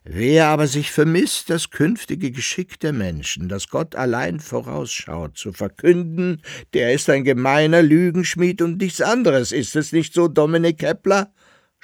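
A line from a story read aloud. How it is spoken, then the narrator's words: Mocking. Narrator (German): spottete der Hannibald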